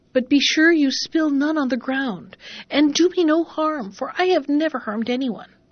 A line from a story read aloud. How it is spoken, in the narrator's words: cried the cow